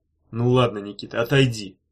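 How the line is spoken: Grumbled. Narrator (Russian): проворчал

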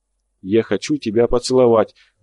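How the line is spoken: Trembling voice. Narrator (Russian): дрожащим голосом сказал я

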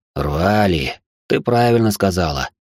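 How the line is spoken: Sighing. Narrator (Russian): вздохнул Черный Ворон

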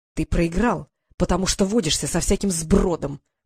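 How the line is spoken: Through clenched teeth. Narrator (Russian): процедил Марк

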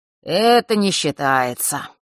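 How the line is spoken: Lazy remark. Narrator (Russian): лениво заметил Фэш

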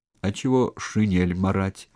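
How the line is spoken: Said through tears. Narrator (Russian): сквозь слезы сказал Караулов

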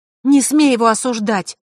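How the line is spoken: Snapping. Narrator (Russian): огрызнулась Василиса

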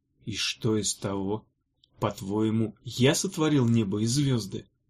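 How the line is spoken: Quiet reply. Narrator (Russian): тихо ответил тот

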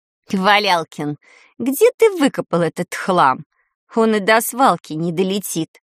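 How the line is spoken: Mocking snort. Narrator (Russian): С издевкой хмыкнула грабыня

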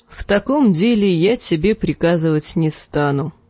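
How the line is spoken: Tired. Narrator (Russian): устало сказал Роб

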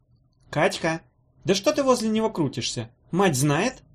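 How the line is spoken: Old woman's booming shout. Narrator (Russian): зычным голосом кричала старуха

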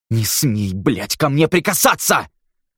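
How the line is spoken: Furious hiss. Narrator (Russian): в бешенстве прошипел Нил

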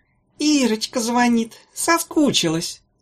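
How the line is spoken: Sweet singsong. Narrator (Russian): Сладким голосом пропела Мамзелькина

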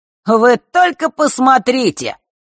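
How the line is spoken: Loud. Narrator (Russian): громко произнес Марк

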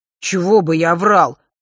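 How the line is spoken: Scoffing. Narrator (Russian): хмыкнул друг

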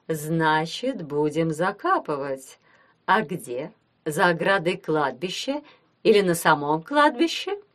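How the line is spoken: Ingratiating question. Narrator (Russian): вкрадчиво спросила она

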